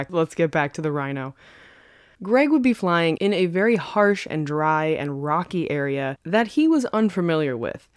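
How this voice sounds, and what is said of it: New York accent. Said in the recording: “I actually truly cannot stop talking with a New York accent. It's getting worse.”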